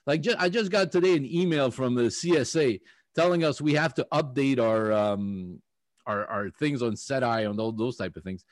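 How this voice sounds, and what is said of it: French-accented English. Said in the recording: “the way I pronounce my phonetic accents is not picked up by the computer microphone ... Unfortunately, I am Francophone.”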